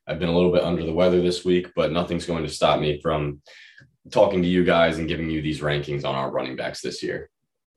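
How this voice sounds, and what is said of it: Hoarse voice. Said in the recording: “my voice is a bit hoarse today”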